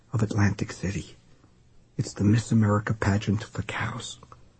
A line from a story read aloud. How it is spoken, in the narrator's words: she whispered to the Swede